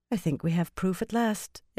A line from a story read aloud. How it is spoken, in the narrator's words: Elaine said more calmly than she felt